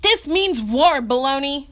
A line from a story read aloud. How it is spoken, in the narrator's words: Dean yelled